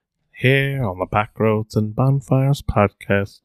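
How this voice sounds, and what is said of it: Morgan Freeman impression. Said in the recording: “impersonations ... My name is Morgan Freeman”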